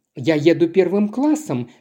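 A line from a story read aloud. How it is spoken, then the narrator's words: Plain. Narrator (Russian): сказала миссис Магликади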